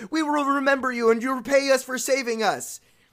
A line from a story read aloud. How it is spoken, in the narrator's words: They quivered with delight and cried to him